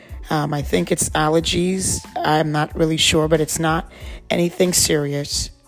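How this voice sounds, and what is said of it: Slightly raspy voice. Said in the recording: “my voice is a little uh, raspy”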